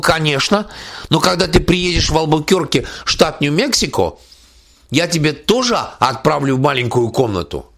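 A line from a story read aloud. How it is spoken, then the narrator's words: Exclaimed. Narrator (Russian): Она воскликнула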